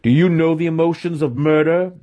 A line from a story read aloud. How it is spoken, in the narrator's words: he spat